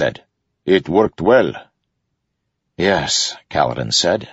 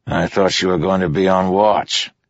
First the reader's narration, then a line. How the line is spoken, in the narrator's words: Teft growled at Lopin